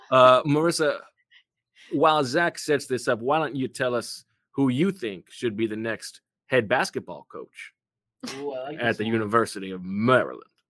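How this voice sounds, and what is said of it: Committed put-on comedic accent. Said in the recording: “Your accent is incredible. Love the commitment to the bit.”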